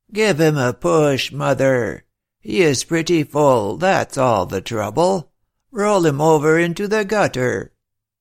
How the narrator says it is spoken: the one who had previously spoken now said in his thick voice

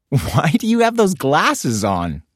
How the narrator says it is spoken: Bibi giggled

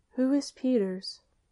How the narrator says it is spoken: the freshman, wishing to avert a possible domestic tragedy, inquired timidly

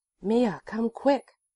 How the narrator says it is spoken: the young spy exclaimed excitedly

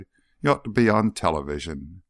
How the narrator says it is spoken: Burris sighed

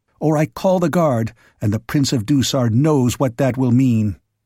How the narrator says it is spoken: she repeated sharply

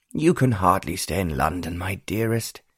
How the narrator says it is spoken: Lord Wickham sighed

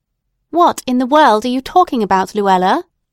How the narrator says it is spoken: said her mother impatiently

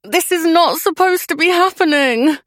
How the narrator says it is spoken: groaned Lucy through gritted teeth

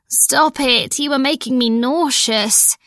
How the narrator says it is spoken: moaned

